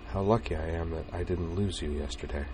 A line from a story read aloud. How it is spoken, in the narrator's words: she said quietly